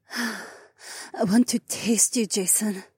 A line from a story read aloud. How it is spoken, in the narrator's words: Haewon moaned